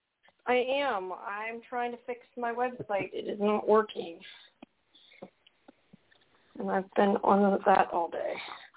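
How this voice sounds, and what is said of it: Tired, exhausted-sounding voice. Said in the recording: “You sound exhausted.”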